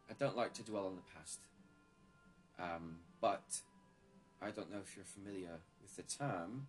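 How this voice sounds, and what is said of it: Inconsistent put-on British accent. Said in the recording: “I switched accents... It's British. And I completely forgot how to be British all of a sudden”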